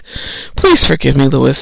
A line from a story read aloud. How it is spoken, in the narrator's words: said Jonathan in a tired voice